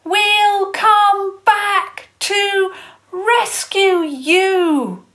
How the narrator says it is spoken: she bellowed over the water

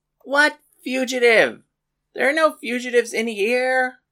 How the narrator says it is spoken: Paris yelled back

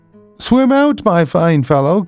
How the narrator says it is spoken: cried my grandfather

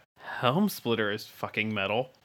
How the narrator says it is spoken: Chaz mutters under his breath

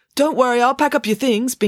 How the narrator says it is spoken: Binky called out to her

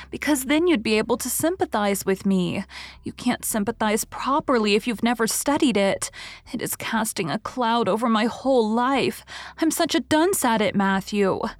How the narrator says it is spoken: sighed Anne

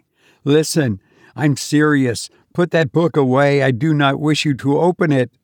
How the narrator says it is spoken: I cried

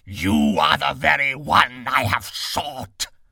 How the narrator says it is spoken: beast roaring out

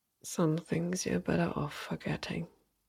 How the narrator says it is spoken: he whispered under his breath

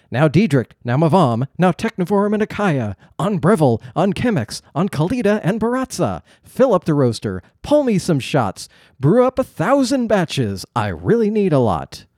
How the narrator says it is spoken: He shouted aloud with great glee in his voice

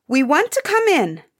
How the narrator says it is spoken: said one of the princes sharply

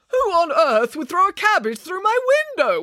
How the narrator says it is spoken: wailed Mr

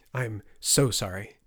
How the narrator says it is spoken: the translator sputtered

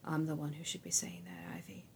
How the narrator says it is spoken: Judah said softly

